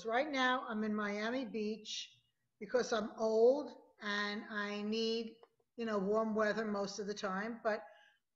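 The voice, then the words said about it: New York accent. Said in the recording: “as you could hear from my voice, I'm a diehard New Yorker”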